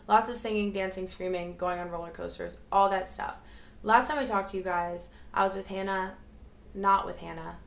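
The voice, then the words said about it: Raspy, partly lost voice. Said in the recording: “My voice is a little bit gone, so if it's a little bit raspy ... obviously you lose your voice”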